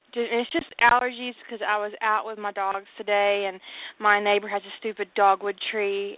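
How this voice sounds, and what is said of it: Slightly hoarse, sniffly voice. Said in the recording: “I'm a little hoarse from it, and I've got a little sniffle”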